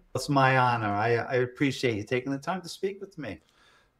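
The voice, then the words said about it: Long Island accent. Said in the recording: “your accent. It's the Long Island accent. ... woulds and shoulds. No ERs. That's the way we talk.”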